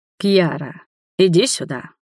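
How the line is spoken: Hoarse, stirring call. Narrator (Russian): Не выдержал и позвал хриплым, будоражащим голосом

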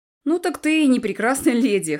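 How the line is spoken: Short chuckle. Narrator (Russian): хохотнул Том

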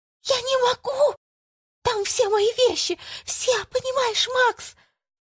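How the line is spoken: Whispered shout, woman. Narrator (Russian): кричать шепотом

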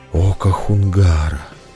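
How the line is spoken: Crowd exhaling in unison. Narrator (Russian): В едином порыве выдохнула толпа

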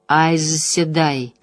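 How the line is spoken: Muttered. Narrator (Russian): пробормотал Ранд

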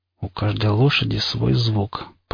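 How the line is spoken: Muttered. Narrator (Russian): пробормотал я

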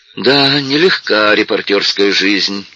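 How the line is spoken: Sighing. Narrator (Russian): вздохнул Флетч

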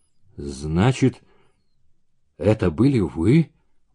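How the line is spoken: Muffled, hollow voice. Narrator (Russian): проговорил глухо

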